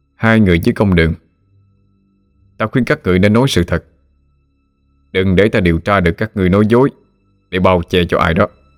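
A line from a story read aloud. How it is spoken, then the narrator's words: Stern question. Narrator (Vietnamese): Lý Mão nghiêm giọng hỏi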